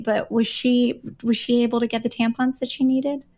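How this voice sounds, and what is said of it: Speaking very quietly. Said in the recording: “I'm going to say this quietly ... Maybe you're speaking too quietly.”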